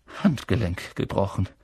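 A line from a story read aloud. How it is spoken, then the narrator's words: Murmuring. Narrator (German): sie murmeln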